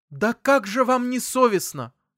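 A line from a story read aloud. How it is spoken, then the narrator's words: Sharp cry. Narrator (Russian): вскрикнула мама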